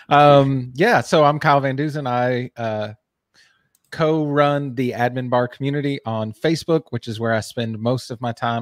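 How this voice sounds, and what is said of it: Speaks with a noticeable regional accent. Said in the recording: “you're going to make fun of my accent”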